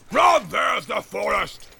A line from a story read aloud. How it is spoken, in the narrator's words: He shouted